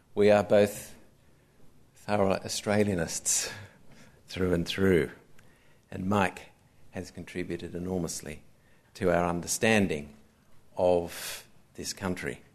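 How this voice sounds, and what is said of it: Slight English accent. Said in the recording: “I guess I've retained some of my English accent”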